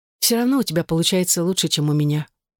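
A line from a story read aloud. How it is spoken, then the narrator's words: Dejected admission. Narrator (Russian): уныло призналась Элизабет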